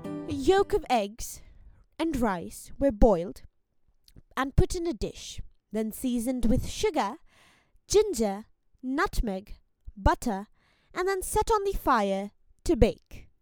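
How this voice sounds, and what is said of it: Attempted old European accent. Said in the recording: “a little bit of 17th century European accent. I'll try to. Won't work very well.”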